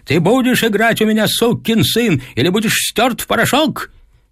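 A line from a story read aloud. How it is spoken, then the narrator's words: Furious shouting father. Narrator (Russian): Отец кричал, сверкая глазами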